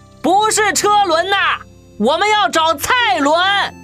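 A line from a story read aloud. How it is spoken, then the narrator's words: Loud repeated question. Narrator (Chinese): 我只得提高音量，又大声问了一遍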